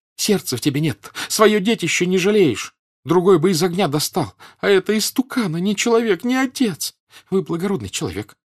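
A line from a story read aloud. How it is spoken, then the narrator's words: Rapid sobbing speech. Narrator (Russian): скороговоркой, всхлипывая, обратилась женщина к Пьеру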